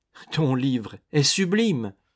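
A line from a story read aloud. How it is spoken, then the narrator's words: Tearful exclamation. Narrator (French): s'écria Lucien, les yeux pleins de larmes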